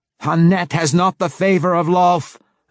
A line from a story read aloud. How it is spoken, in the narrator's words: Malice screamed